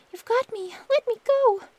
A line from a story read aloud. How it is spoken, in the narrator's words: Thumbling cried